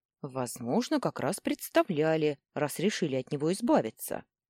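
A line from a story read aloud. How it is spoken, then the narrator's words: Grumbling. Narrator (Russian): пробурчала я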